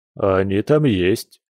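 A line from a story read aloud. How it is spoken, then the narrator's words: Snorting. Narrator (Russian): хмыкнул мужчина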